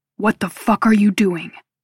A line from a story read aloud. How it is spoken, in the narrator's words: Jake growls